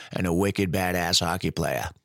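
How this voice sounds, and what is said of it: Put-on Boston accent. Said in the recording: “I'm a sucker for the Boston accent. Had to do it.”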